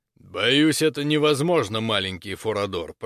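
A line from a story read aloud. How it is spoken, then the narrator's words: Deep bass voice. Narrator (Russian): пробасил Люмингард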